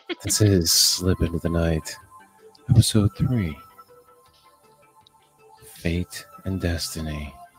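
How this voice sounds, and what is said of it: Droning NPR radio-host voice. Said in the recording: “my NPR voice ... as I talk in this very droning on voice”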